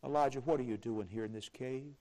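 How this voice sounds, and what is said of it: Quiet, soft voice. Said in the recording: “in a still small voice”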